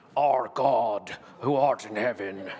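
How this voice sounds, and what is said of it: Poor imitation of a famous actor's voice. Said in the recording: “a special voice that we pray in ... a bad Sean Connery impression a little bit”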